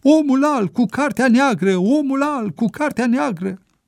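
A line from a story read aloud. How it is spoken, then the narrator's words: Crowd shouting in unison. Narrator (Romanian): indienii l-au conjurat strigând cu toți odată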